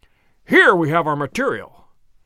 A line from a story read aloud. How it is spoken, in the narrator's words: cried Holmes